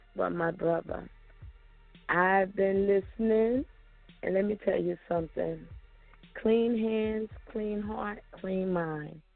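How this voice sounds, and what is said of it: Voice slightly sick, under the weather. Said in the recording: “I was a little under the weather. I guess you can still hear it in my voice.”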